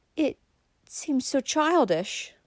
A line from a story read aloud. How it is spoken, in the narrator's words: faltered Valancy